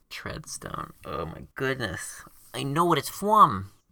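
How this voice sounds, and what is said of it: Baby voice. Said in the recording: “when I go to my baby voice. ... I would also pay you to stop using the baby voice.”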